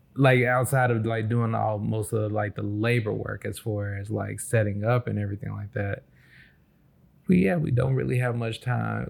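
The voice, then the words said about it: Sleepy, tired-sounding voice. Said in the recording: “even right now I'm sleepy. And you can probably hear it in my voice.”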